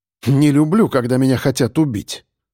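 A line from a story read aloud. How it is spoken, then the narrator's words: Scoffing grunt. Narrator (Russian): хмыкнул я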